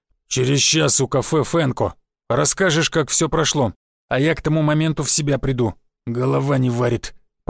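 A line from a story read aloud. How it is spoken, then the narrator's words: Sleepy deep bass. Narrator (Russian): пробасил, потирая небритую сонную физиономию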